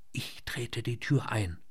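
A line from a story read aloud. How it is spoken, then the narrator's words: Whispering. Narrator (German): flüsterte er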